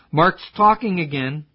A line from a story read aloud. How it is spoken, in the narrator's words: Chuck blurted out